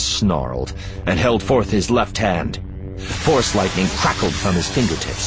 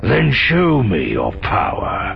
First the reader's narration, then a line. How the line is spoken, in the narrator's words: Malgus said, sneering